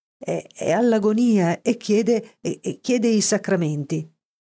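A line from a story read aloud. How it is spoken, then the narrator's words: Stammered. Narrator (Italian): balbettò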